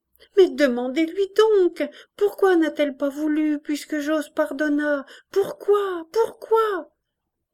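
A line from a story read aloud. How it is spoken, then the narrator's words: Pleading. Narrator (French): suppliante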